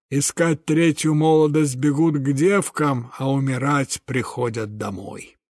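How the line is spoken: Wise smoky bass. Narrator (Russian): супруга одного видного деятеля говорила мудрым прокуренным басом

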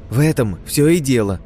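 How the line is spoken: Loud joyful cry. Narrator (Russian): радостно заголосила Жизнючка, будто того и ожидала

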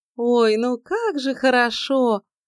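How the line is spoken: Joyful singsong. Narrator (Russian): радостно пропела Соня

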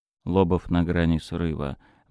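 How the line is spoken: Gloomy. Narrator (Russian): мрачно ответил контрразведчик

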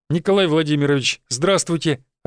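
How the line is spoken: Joyful reply. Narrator (Russian): радостно ответил

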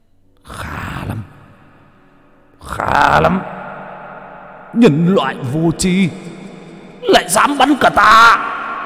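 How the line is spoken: Angry roar. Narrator (Vietnamese): một tiếng gầm tức giận vang lên

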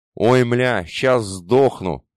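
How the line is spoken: Howled, choking with laughter. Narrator (Russian): давясь от хохота, взвыл один из грузчиков

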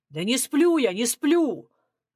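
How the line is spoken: Loud barking shout. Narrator (Russian): гаркнул Журавлев

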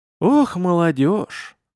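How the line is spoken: Merchant sighing. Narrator (Russian): вздохнул торговец

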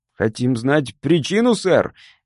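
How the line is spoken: Shouted. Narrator (Russian): крикнул

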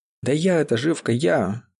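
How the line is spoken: Irritated. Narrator (Russian): раздраженно сказал Бажера

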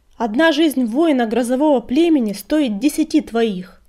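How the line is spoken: Shout. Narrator (Russian): крикнул Огнегриф

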